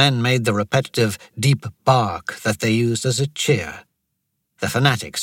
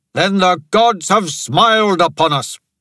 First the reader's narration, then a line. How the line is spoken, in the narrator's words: Toramana shouted